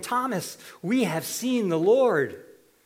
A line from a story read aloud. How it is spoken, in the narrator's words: the rest exclaimed to him